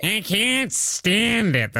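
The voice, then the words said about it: Nasal New York grandma accent. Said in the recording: “have like a nasally kind of sound ... pretend like you have like a grandma from New York”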